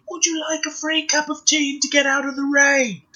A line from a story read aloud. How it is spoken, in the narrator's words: shouting